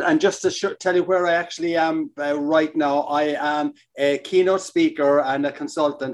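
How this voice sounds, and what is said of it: Irish accent. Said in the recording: “a terrific Irish accent ... I'm coming in with that Irish accent”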